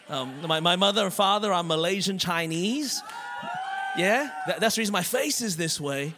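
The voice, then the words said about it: Australian accent. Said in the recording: “I was born and raised in Melbourne, Australia. That's the reason my voice is this way.”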